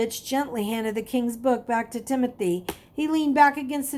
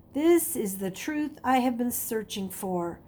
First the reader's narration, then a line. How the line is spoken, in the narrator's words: He murmured quietly